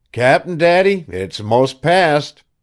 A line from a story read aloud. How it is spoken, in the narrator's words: The waves of tantrums rolled over you, one by one, your yells growing less and less, and by you called out tween squalls